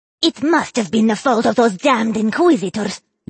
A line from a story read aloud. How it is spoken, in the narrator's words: Yarlan said through a snarl